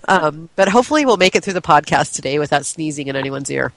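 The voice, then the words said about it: Gritty, congested voice. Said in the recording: “have a bit of the sniffles today ... my imitation of Brenda Vaccaro now with my gritty voice”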